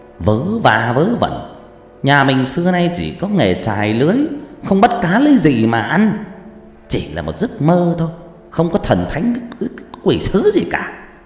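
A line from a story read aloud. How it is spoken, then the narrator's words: Man angrily scolding. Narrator (Vietnamese): Người đàn ông quát nạt vợ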